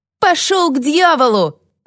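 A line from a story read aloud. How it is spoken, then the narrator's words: Yelling. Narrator (Russian): завопила Саммер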